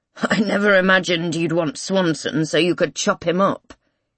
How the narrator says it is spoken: he mutters

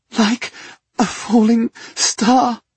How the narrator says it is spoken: she had said, choking on sobs

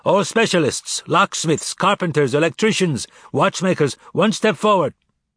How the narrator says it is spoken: The capos arrived, shouting

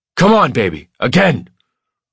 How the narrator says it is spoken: I shout, and my voice is almost unrecognizable to me

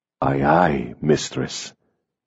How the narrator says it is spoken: he whispered

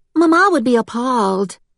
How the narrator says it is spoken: The other piped in with

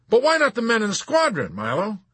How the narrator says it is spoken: Colonel Cathcart exclaimed

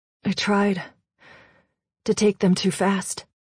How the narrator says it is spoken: he said between breaths

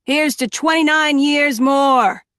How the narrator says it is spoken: shouted from the back of the room

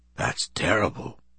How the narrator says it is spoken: he said softly

